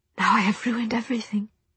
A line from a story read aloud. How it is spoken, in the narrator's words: she whispered